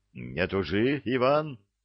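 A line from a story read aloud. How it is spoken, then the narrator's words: Angry, fist banging table. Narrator (Russian): треснул кулаком по столу, сердито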